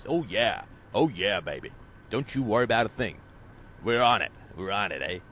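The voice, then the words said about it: Generic tough-guy gangster accent. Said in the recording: “That's my generic thug accent. It comes from nowhere.”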